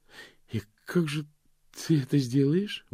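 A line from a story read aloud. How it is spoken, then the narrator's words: Forced out with effort. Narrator (Russian): выдавила она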